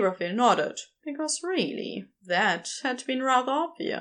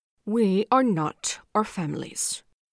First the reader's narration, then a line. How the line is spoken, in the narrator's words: said firmly